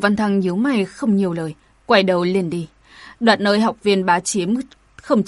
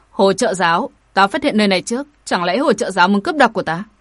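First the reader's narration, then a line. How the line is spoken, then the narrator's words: Impassive shout. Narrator (Vietnamese): mặt không đổi sắc quát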